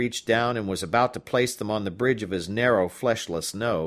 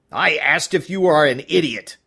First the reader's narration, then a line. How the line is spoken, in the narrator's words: he barked